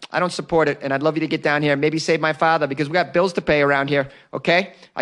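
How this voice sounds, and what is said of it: Indian daughter voice, Boston accent. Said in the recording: “that is my impression of a Indian daughter with a Boston accent.”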